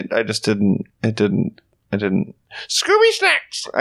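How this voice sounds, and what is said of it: Scooby-Doo cartoon dog voice impression. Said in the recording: “Who did Scooby Snacks like that? ... was that a Scooby Doo impression? ... Yes.”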